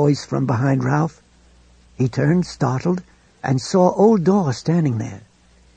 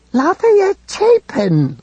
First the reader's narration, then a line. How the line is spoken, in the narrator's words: Liza Zell cried